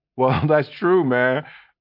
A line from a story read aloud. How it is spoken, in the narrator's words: I said laughing